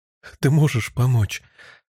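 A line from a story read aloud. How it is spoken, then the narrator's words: Tearful question. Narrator (Russian): спросила Хелен сквозь слезы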